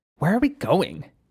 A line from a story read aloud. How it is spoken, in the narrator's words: Ekiwaka said, whispering